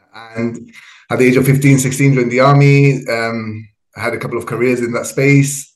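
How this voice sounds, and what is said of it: Spanish-influenced Gibraltarian accent. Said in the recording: “So the accent comes from, I think, the neighboring country, which is Spain.”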